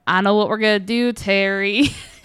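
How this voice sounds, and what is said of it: Weird put-on Southern accent. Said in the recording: “sometimes did this weird accent. ... He's from Iowa, not the South.”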